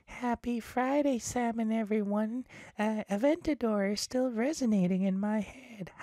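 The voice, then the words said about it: Put-on voice imitating a viewer. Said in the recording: “I forgot to do her voice.”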